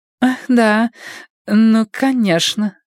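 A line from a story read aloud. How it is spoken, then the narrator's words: Uncertain. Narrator (Russian): неуверенно сказала миссис Экрейт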